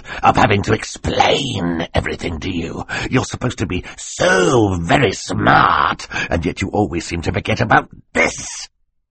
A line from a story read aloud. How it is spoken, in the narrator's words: Stefano snarled